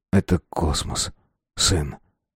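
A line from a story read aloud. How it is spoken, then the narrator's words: Whisper. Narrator (Russian): прошептал Коля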